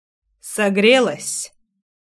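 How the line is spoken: Deep low voice. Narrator (Russian): густым низким голосом спросил он

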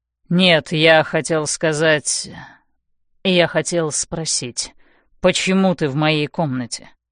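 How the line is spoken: Gloomy question. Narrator (Russian): мрачно спрашивает он

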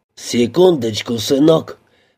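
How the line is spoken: Man's hoarse wheeze. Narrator (Russian): прохрипел мужчина

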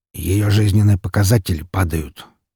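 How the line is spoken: Said quietly. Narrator (Russian): тихо сказал стоящий рядом со мной Григорий

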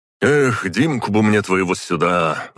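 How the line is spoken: Sighing. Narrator (Russian): вздохнул

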